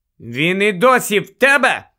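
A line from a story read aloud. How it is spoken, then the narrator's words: Shout. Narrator (Ukrainian): крикнула Герміона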